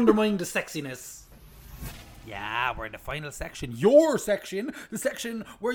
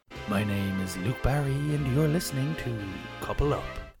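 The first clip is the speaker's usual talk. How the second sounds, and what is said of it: Put-on sexy voice. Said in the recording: “Are you trying to be sexy? ... That is my sexy voice”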